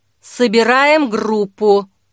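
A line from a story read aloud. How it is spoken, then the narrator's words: Through clenched teeth. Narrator (Russian): процедил Лука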